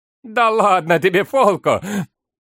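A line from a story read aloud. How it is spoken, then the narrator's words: Laughing. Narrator (Russian): Хьериди рассмеялся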